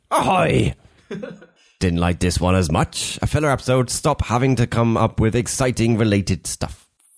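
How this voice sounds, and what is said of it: Put-on character voice. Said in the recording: “I just impersonate whoever I feel like. ... I'm not going with that voice.”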